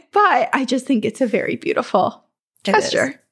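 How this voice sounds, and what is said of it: Gravelly, tearful voice. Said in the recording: “now I'm going to start crying. My voice is getting gravelly.”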